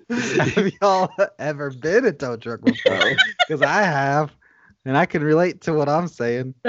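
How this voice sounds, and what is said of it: Poor imitation of another person's voice. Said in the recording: “That's a horrible like impression ... Now I'm just doing this accent ... Yeah, that's bad ... I don't know what accent that is, but it's not Larry the Cable Guy”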